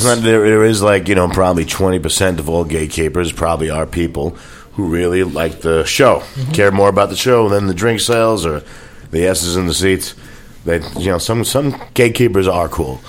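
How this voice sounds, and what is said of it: Good radio voice. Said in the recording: “You have a really good radio voice.”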